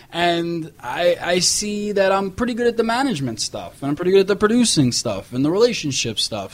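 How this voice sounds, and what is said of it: New York accent. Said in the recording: “I'm a New Yorker. I got the accents”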